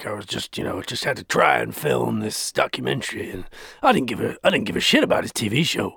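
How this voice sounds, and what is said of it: Bad impression of a man's voice. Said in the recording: “that was the worst impression.”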